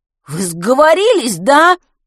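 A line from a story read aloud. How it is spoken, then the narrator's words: Loud yell. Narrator (Russian): завопил Матвей на весь подъезд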